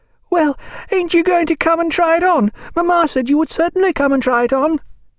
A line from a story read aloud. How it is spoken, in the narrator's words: with some indignation Charlotte cried